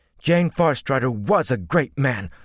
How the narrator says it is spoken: said fiercely

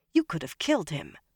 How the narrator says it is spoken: Egwene said sharply

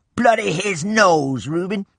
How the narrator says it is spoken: In a loud voice, Rainey said

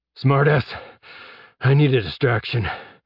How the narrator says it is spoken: Jeb gasped as he ran

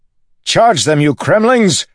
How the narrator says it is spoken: Adolin shouted

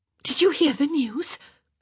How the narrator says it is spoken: Eloise asked breathlessly

